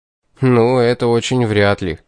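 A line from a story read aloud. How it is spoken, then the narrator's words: Doubtful snort. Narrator (Russian): хмыкнул на это я, серьезно усомнившись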